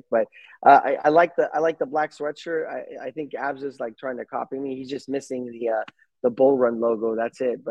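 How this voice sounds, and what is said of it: Slightly lost, sick-sounding voice. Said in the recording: “not feeling 100%. Kind of losing my voice a little bit. I think I'm getting sick”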